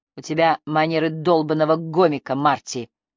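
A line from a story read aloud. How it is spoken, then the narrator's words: Contemptuous snort. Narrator (Russian): презрительно фыркнула Триция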